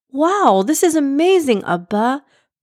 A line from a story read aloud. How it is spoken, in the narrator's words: Prince Abdullah exclaimed